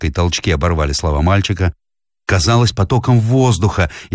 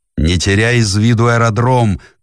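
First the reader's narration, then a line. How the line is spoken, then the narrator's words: Shout through pain. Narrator (Russian): крикнул Бен сквозь приступ боли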